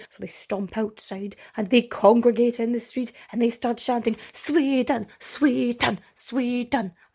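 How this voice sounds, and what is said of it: Chanting in a put-on German accent. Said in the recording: “This is why I shouldn't do accents ... I don't know why I made them sound German.”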